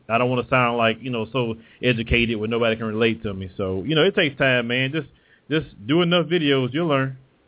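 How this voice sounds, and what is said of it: Southern country accent. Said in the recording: “my accent. ... I sound country as hell ... I am from the South”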